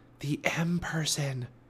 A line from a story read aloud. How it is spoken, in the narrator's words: she whispered